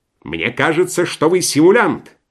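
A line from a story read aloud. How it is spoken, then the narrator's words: Shouting. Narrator (Russian): крикнул на Швейка другой доктор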